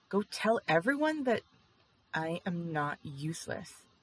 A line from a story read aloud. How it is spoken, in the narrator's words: Jiang Yanli said fiercely